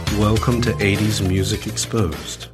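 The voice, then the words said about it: Put-on radio announcer voice. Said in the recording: “This is my radio voice... That's ... radio voice... That's ... with his radio voice.”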